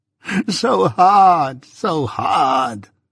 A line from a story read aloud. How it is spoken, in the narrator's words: moaned Miss Havisham, with her former action